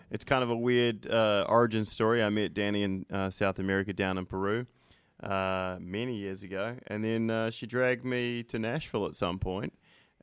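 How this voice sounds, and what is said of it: New Zealand accent. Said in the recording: “with the great accent ... I'm from New Zealand originally”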